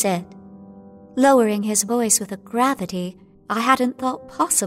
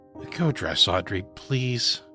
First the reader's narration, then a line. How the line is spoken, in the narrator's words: he added, a weariness I hadn't detected before, almost slurring his voice